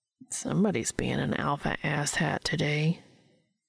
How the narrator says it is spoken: he muttered under his breath

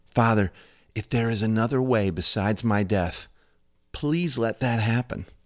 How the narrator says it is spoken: Filled with pain and sorrow, he pleaded with God

